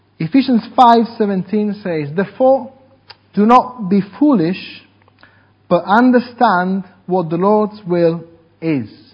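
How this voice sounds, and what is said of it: Non-native English accent. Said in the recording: “English is not my language, so please bear with my accent.”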